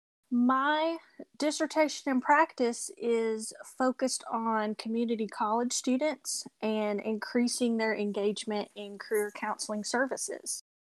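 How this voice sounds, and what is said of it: Tennessee Southern American accent. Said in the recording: “I am Tennessee born, so you may hear my accent come through.”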